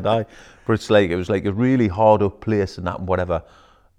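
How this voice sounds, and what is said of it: Northeast English Newcastle accent. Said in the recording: “I grew up in Bladen, in Newcastle... Back in England... explains the accent... northeast of England”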